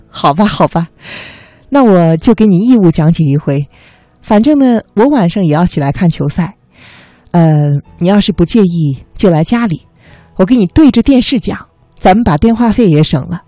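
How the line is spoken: Laughing wildly, interrupting. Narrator (Chinese): 他狂笑着打断了我说

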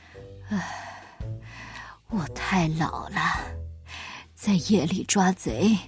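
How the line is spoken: Old man sighing. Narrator (Chinese): 水壶爷爷叹了口气

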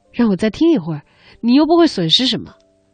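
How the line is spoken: Apologetic, smiling. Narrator (Chinese): 阿明陪着笑

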